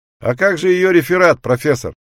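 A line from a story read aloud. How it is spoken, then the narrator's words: Shouted from the audience. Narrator (Russian): крикнул кто-то из рядов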